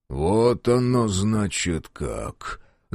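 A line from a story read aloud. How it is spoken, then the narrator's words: Thoughtful drawl. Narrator (Russian): задумчиво протянул Буденный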